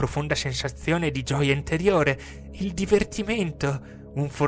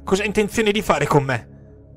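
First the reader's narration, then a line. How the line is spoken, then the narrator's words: Desperate tearful yell. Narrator (Italian): urlai disperato, colmi di lacrime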